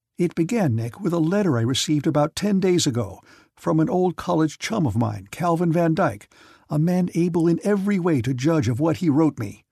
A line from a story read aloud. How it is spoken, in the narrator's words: he said earnestly